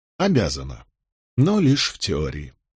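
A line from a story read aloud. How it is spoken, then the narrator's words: Sighing. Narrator (Russian): вздохнул я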